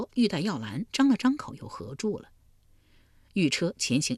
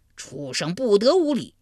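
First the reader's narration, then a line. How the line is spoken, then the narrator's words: Thunderous roar. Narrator (Chinese): 他这一吼如晴天响了一声霹雳，震得山摇地动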